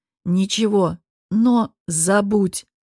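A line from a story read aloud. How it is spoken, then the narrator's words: Commanding voice. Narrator (Russian): командным голосом произнес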